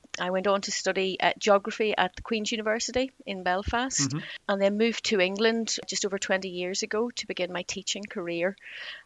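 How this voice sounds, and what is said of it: Northern Irish accent. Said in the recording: “as you may be able to tell from my accent, I was brought up in Northern Ireland”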